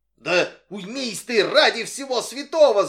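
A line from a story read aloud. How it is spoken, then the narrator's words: Shouting. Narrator (Russian): закричал Брудж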